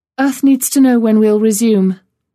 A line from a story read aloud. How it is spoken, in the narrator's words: Ferguson sighed heavily and said